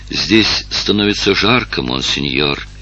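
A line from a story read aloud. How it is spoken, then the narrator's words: Quiet. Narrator (Russian): тихо сказал Евгения Луи Наполеону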